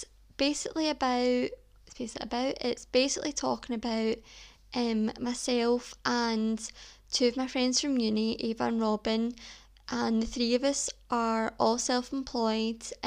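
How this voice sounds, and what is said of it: Broad regional accent. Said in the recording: “that was really broad in my accent.”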